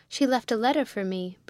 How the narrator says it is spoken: Briggs exclaimed

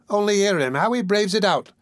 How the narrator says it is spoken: cried the young woman

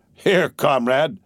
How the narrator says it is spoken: he said with a laugh

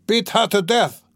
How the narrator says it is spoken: cried Mikolka

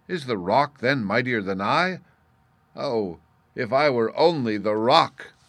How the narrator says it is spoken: The cloud was amazed at the sight and cried in wonder

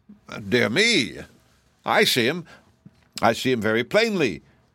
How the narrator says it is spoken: exclaimed the king, his purple eyes bulging out

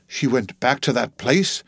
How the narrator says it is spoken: he screamed

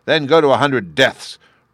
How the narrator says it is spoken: roared the king

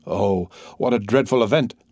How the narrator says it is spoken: cried Maximilian

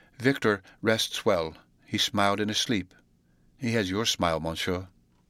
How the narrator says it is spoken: she said very quietly

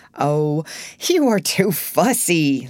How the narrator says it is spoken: laughed Mr

